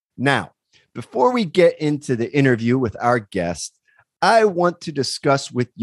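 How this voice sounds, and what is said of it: Usual voice. Nothing is said of it.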